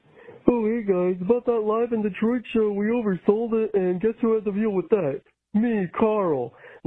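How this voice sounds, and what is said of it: Imitates another person's voice. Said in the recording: “that was a good impression of you, though.”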